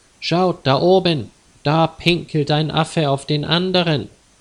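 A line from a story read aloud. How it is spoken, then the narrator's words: Girl calling loudly. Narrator (German): Ein Mädchen rief laut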